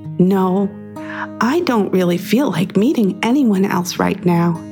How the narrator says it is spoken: whispered back

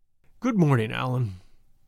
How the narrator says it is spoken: he said in a melancholy voice

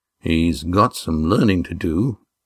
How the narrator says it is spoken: said Damon grimly, covering his surprise

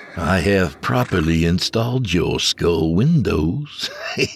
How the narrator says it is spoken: the voice said with a chuckle

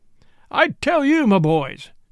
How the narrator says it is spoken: cried

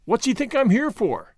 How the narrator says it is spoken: cried Gordon

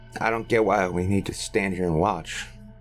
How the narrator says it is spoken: muttered Roy with a scowl

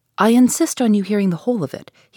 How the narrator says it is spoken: he replied

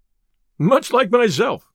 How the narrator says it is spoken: said Robin, laughing

